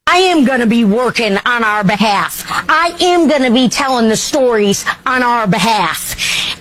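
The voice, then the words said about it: Noticeable accent, enthusiastic delivery. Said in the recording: “you got to hear the accent. ... I love her enthusiasm.”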